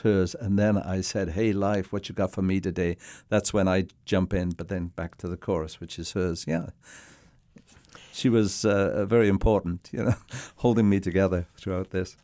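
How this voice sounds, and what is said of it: Welsh accent. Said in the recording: “born in Cardiff, Wales ... they did notice your accent”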